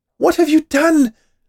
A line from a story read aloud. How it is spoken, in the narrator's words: cried from inside the oven